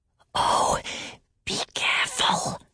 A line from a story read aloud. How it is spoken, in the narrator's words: whispered Salmakia